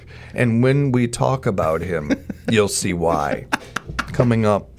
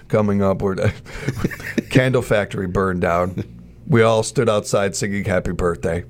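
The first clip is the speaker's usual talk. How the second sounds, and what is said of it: Imitates another person's voice. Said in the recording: “I feel like I'm doing a Stephen Wright impression.”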